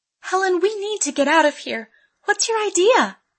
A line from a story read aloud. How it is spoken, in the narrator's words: Amy pleaded